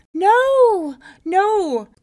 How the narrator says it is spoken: cried Shindu

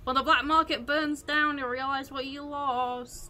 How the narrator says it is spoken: I'm gonna shout at her and say

